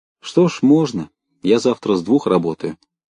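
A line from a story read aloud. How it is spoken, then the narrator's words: Plain. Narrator (Russian): сказал Андреев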